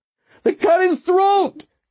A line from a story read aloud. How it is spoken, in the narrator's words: Kolb screamed